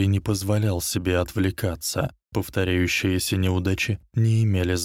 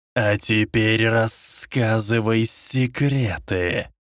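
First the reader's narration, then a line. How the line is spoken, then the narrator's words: Dark lord's hiss. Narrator (Russian): прошипел Темный лорд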